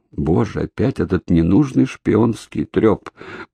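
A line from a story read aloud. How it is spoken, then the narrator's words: Groaned. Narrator (Russian): простонал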